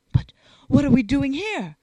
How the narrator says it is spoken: exclaimed Hollier, pale and horrified

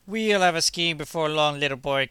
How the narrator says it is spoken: cried Kosser, hands to his mouth as he shouted

